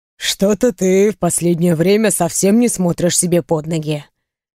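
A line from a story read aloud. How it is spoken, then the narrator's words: Wry snort. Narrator (Russian): хмыкнул Рэй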